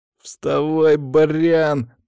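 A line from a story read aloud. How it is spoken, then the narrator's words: Hoarse, pained. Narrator (Russian): прохрипел Саня, перебарывая боль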